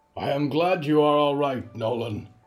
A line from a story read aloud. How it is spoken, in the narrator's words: Riku said loudly and felt he was choking